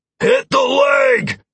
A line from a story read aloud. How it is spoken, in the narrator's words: Trace's voice boomed over the cacophony of combat